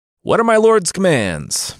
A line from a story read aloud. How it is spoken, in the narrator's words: the giant bellowed